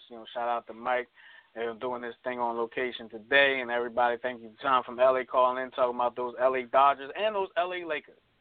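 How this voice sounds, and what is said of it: Hoarse, fading voice. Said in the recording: “I'm losing my voice if you can't tell. I've lost my voice.”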